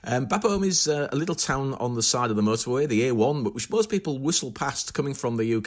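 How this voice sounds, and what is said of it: Northeastern English accent. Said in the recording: “my northeastern English accent”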